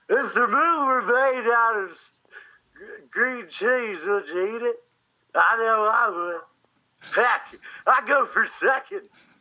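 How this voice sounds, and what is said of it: Celebrity impression of another's voice. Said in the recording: “do your best celebrity impression ... it's an impression of an impression. It's an impression of Will Ferrell doing Harry Carey.”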